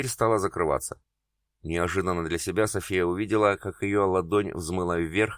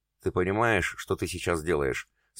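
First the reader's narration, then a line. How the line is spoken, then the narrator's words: Calm, consumptive woman. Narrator (Russian): спокойно проговорила чахоточная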